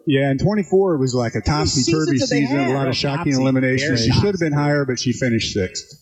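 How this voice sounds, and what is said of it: Minnesota-like Midwestern American accent. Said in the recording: “you could be from Minnesota. You have kind of the personality and the accent.”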